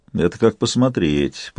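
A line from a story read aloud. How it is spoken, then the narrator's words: Grumbling. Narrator (Russian): проворчал Сварог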